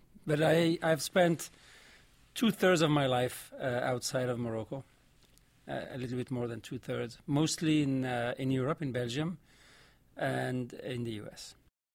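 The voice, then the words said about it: Vaguely French-sounding accent. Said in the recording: “your accent. That sounds vaguely French to me. ... there is an accent in there.”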